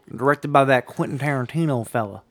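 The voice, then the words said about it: Put-on Southern US accent. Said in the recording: “Why are we doing Southern accents suddenly?”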